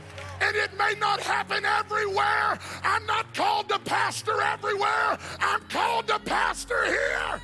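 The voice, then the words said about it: Screaming, loud preaching voice. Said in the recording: “Why are you screaming?”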